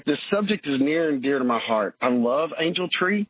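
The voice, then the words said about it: Choked-up, emotional voice. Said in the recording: “I'm getting a little choked up here.”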